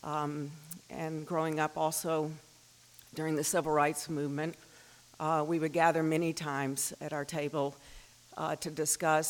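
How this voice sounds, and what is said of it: Southern US accent. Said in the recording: “you can probably tell from my accent, I'm not from around here. I grew up in the Deep South”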